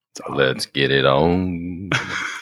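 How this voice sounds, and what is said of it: Deep, put-on sexy voice. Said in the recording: “Your voice is almost getting deep enough... It's my sexy voice.”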